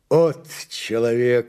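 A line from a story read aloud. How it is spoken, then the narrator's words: Officer exclaiming. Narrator (Russian): воскликнул старший политрук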